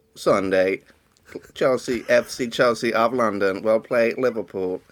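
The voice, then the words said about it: Robotic computer voice. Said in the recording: “in a computer voice ... a robot voice ... made me sound like an eminent physicist”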